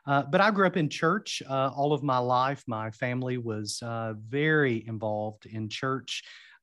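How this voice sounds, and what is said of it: Eastern Kentucky accent. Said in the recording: “once they heard my accent, they knew obviously I was not from the London that they were acquainted with ... southeastern Kentucky”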